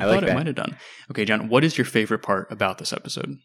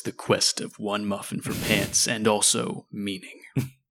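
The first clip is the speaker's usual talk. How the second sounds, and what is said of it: Dramatic movie announcer voice. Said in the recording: “I was going to do mine in a movie announcer voice”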